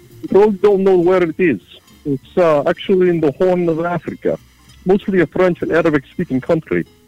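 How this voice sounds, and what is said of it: Russian accent. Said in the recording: “you kind of seem to have a Russian accent”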